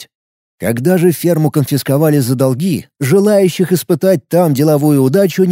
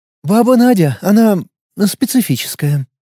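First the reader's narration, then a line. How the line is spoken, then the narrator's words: Sighing. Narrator (Russian): вздохнула Елена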